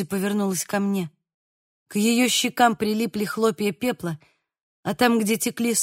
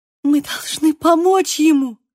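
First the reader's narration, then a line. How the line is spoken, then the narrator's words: Sobbing. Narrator (Russian): всхлипнула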